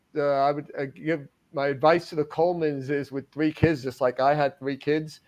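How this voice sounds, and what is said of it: Long Island New York accent. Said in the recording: “this is not a Georgia accent ... Long Island ... after 28 years being in Atlanta, the accent shifted north a little”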